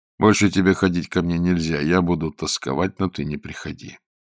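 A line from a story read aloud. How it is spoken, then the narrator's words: Quiet speech. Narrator (Russian): Зорге негромко говорил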